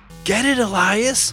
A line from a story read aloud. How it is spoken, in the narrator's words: yelled Abigail